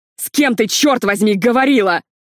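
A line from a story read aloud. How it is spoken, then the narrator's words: Furious yell. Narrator (Russian): Картер заорал так, что Лили вздрогнула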